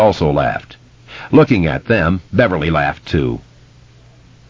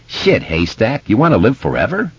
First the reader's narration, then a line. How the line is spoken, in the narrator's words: he snorted laughter